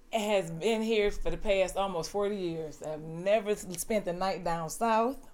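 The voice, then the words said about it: Strong Southern US accent. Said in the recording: “you have a very distinct, very hard southern accent”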